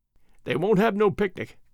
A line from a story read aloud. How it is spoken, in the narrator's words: went on Alfred, with a little chuckle